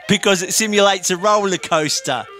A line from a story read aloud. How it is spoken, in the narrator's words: laughed